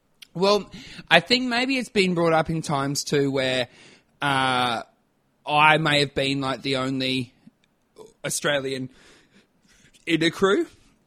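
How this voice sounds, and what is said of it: Strong Australian accent. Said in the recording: “you have a really strong Aussie accent”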